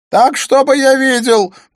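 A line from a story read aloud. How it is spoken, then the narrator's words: Shouted. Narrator (Russian): прокричал Смит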